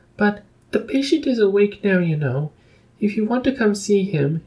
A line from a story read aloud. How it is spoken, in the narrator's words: squeaked